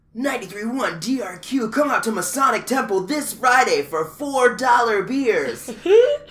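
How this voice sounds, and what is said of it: Radio DJ announcer voice. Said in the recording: “That was a really, really wonderful radio DJ voice.”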